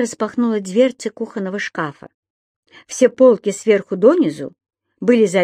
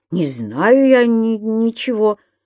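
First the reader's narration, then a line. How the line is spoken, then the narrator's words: Stammering. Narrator (Russian): заикаясь, проговорил господин Пепперминт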